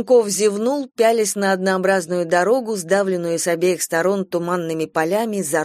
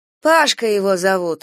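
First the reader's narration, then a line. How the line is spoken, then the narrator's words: Sighing. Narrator (Russian): сказала Галя и вздохнула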